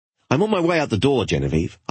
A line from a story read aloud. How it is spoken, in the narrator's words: I replied impatiently